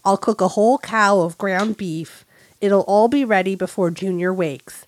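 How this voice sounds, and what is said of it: Reads in a put-on accent. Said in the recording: “That's your accent. That is your accent. You did amazing.”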